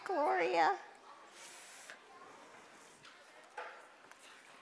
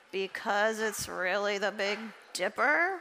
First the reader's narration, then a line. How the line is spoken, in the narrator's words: Arthi groaned